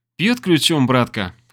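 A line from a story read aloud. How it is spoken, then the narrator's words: Amused snort. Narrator (Russian): хмыкнула она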